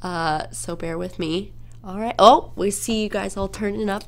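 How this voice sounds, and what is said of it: Congested, stuffed-up nasal voice. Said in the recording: “my voice sounds weird, it's because I have a stuffed up nose right now”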